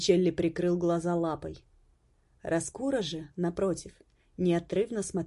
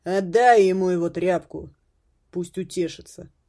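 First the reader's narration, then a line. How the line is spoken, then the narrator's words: Booming distant voice. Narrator (Russian): Прогремел голос с лестницы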